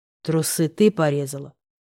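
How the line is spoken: Forced calm, restrained anger. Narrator (Russian): спросил я спокойно

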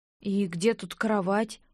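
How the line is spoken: Low mutter. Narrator (Russian): вполголоса пробормотала я

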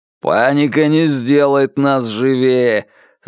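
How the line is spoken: Growl betraying panic. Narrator (Russian): зарычал Че Гевара, хотя голос выдавал, что и он охвачен ею ничуть не меньше прочих

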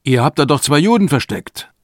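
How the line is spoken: Called out. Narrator (German): Er rief

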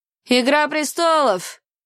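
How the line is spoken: Shouted from the back. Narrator (Russian): крикнул кто-то с задних рядов

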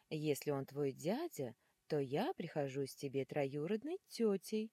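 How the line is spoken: Exclaiming. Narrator (Russian): воскликнула мадам Гарпия

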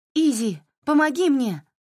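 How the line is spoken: Shout over shoulder. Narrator (Russian): крикнула она через плечо

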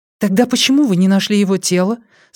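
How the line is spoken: Plain. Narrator (Russian): спросила Вера

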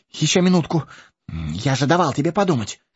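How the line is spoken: Babbling. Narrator (Russian): Пролепетал хоббит

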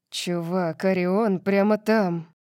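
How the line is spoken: Hissed. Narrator (Russian): прошипел Калиб

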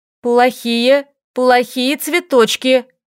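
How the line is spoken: Forced firm, choked voice. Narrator (Russian): Сглотнув ком в горле, как можно более твердым голосом произнесла Лиля

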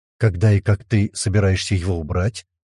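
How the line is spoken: Muffled low question. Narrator (Russian): глухо спросил Мухаммад

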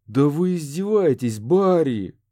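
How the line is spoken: Exasperated groan. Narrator (Russian): простонал он

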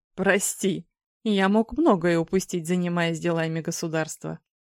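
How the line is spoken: Laughing. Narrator (Russian): рассмеялся Орион, который человек

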